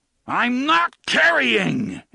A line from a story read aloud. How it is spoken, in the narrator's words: Eddie roared